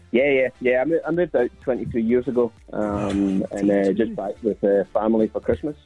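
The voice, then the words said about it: Strong Scottish accent. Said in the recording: “The accent's still quite strong.”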